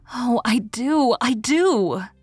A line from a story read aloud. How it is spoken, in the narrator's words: exclaimed Leslie, with an eagerness which seemed to burst forth and beat down some restraint that had been imposed on it